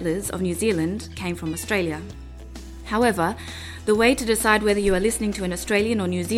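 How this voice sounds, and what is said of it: Usual voice. Nothing is said of it.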